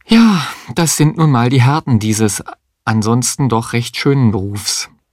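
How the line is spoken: Sighing remark. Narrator (German): seufzend bemerkte

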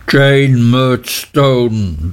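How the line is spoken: Thundering. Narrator (German): donnerte Mr

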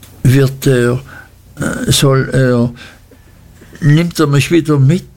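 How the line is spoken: Stammering. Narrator (German): stotterte

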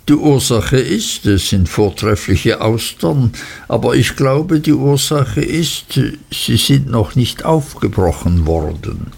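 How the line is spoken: Cheerful laughing. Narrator (German): lachte Traddles fröhlich

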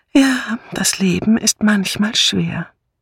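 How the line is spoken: Sighing murmur. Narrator (German): seufzend und murmelte

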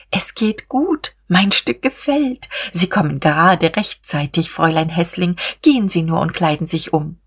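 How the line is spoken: Excited smiling whisper. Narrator (German): Sie lächelte erregt und flüsterte

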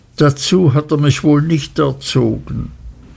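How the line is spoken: Mother sobbing. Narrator (German): schluchzte meine Mutter

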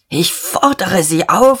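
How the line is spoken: Hoarse with excitement. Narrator (German): sagte Diederich heiser vor Erregung

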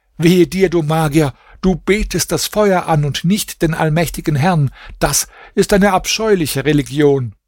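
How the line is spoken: Shouted. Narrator (German): Hasan schrie

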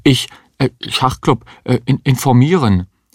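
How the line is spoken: Schoolboy stammering. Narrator (German): Der Schüler stammelte

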